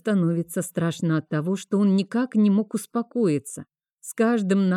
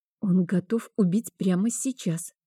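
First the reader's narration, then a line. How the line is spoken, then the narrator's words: Whisper. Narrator (Russian): прошептала я Вейнарду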